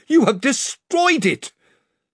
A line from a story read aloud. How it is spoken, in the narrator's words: cried Lord Roop